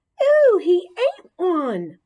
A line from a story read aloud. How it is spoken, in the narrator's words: Heidi squealed